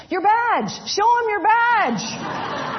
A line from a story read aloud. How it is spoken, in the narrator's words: old rancher yelled at the top of his lungs